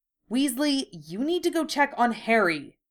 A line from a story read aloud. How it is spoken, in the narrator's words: Draco said, his voice tight